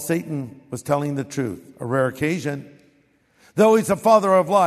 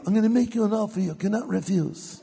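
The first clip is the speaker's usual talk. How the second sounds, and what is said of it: Bad Godfather mobster impression. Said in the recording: “Really bad Godfather imitation.”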